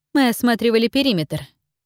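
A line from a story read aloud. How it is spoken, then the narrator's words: Dry explanation. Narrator (Russian): сухо пояснила она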